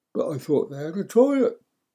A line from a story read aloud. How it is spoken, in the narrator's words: I whined, confused